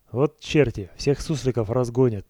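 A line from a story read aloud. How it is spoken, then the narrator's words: Good-natured envious grumbling. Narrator (Russian): добродушно ворчал разжалованный баритонист Фомичев, завидуя своим товарищам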